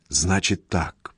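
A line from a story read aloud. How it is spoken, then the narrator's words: Barely audible. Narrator (Russian): еле слышно говорит Даша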